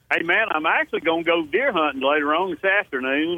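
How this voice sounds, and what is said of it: Southern American drawl. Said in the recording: “southern drawl guy, southern gentleman”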